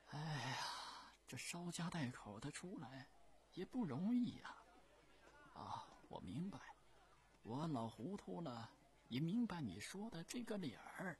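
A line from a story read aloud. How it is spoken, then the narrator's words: Old man sighing. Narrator (Chinese): 老人叹叹气说道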